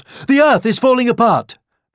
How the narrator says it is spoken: The timid hare was almost too scared to stop, but he paused just for a second to shout

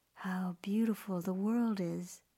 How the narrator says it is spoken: she breathed, entranced

